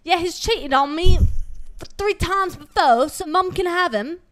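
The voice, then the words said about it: Put-on British accent. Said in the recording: “I'm going to try to do a British accent. ... That was good.”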